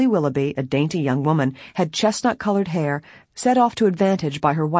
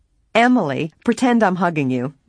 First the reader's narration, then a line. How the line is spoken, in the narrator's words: Nancy said with a laugh